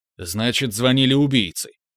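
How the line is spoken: Curt. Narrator (Russian): отрезал я

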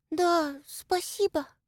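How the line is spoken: Young girl's whisper. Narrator (Russian): прошептала худенькая девочка лет 12

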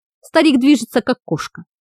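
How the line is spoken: Approving snort, witch. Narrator (Russian): одобрительно хмыкнула колдунья

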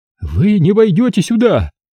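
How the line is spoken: Shout. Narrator (Russian): закричал священник

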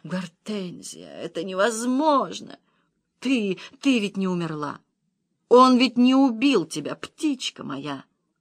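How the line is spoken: Male moaning. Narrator (Russian): Он стонал

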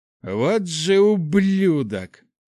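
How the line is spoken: Growled through clenched teeth. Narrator (Russian): рыкнул сквозь сжатые зубы паладин

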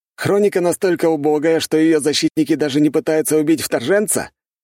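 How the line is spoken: Loud and clear. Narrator (Russian): громко и четко говорю я

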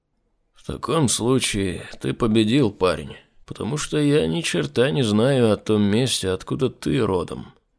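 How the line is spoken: Dejected. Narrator (Russian): уныло произнес Айзек

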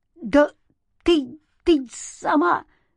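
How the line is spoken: Indignant stammer. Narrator (Russian): заикался Антон от возмущения

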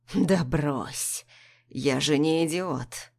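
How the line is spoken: Husband's husky whisper. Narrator (Russian): Хрипло шепчет муж

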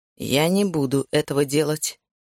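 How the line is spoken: Plain. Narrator (Russian): наконец сказал он

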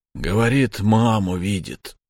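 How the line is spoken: Sad. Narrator (Russian): грустно сказал дядя Петя

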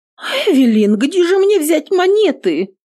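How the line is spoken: Panicked exclamation. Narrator (Russian): воскликнула девушка, паникуя

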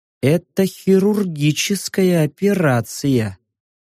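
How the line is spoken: Slow. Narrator (Russian): медленно произнес я

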